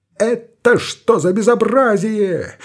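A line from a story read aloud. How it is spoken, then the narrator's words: Shrill yell. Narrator (Russian): завопил Артобалевский пронзительно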